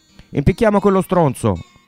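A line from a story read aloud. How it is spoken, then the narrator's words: Rough man shouting from back. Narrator (Italian): gridò un brutto ceffo dal fondo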